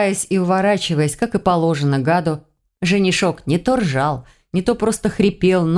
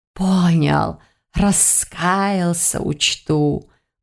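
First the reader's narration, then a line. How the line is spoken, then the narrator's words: Snide hiss. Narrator (Russian): прошипел Полос, и так ехидно это прозвучало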